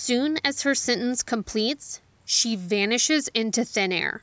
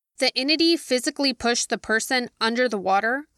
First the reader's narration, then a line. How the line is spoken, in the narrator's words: Claire asked